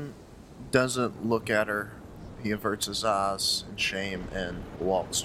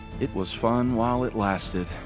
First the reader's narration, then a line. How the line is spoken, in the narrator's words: with a sigh, she says